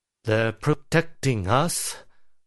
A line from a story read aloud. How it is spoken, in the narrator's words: Houdini muttered